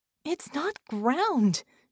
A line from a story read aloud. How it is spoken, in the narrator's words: she panted, trying to hold off desperation